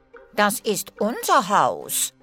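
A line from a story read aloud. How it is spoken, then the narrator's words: Angry dwarf. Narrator (German): sagte ein Zwerg wütend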